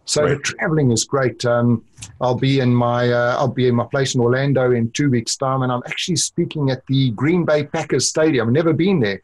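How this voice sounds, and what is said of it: South African accent. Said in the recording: “people can hear your accent, and clearly it's not Orlando ... it's South African, isn't it?”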